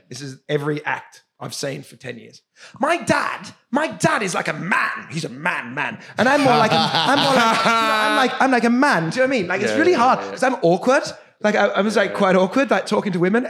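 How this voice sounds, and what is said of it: Imitates an English stand-up comedian. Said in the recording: “my impression of an English stand-up comedian at the Melbourne Comedy Festival”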